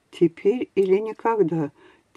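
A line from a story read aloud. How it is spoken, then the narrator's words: Quiet whisper. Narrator (Russian): тихо прошептал Фабио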